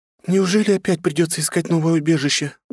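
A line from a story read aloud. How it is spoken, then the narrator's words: Sad sighing, young woman. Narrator (Russian): грустно выдохнула девушка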